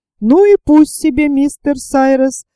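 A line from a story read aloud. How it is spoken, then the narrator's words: Exclaiming. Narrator (Russian): воскликнул Пенкроф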